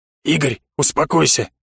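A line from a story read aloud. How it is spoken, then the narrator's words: Quiet urging. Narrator (Russian): негромко призвал меня Гудрон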